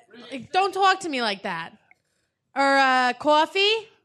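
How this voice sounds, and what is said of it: Put-on Brooklyn New York accent. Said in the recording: “New York? ... Long Island? ... It's a borough. ... Brooklyn? ... Of, yeah.”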